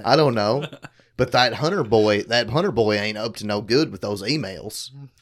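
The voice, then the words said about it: Put-on Southern US accent. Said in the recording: “southern accent”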